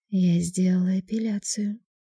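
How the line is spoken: Sly whispered reply. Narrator (Russian): лукаво шепнула в ответ

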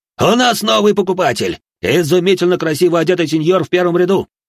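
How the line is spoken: Auctioneer yelling. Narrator (Russian): распорядитель торгов завопил

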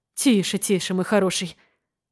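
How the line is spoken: Mutter. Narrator (Russian): пробормотал

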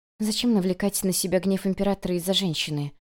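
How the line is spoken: Quiet reply, girl. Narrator (Russian): тихо ответила девушка

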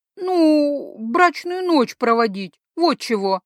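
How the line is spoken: Woman forcing words out. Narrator (Russian): выдавила брюнетка

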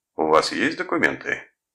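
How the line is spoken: Rough, suspicious. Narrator (Russian): Уже грубо, с явным подозрением, обратился патрульник к Томасу

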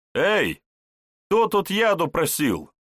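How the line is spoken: Cheerful shout. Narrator (Russian): весело выкрикнул Вожников

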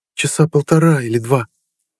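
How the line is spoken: Hesitant, unsure answer. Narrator (Russian): слегка запнувшись, неуверенно ответила

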